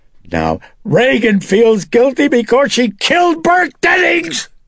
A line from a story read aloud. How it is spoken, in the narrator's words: Chris shrieked